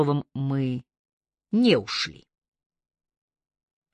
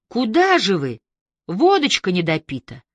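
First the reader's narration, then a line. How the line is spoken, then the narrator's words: Exclaimed, heavy smoker's voice. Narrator (Russian): Ксения Алексеевна, отчаянная курильщица и любительница застолий, воскликнула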